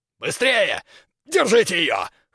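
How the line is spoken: Hoarse exclamation. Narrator (Russian): хрипло воскликнул Крюгер

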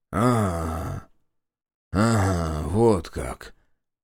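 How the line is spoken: Muttered. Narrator (Russian): пробормотал знаток

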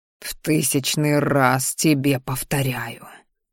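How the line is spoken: Hoarse wheeze. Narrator (Russian): прохрипел

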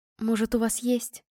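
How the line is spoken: Pleading. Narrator (Russian): взмолилась она

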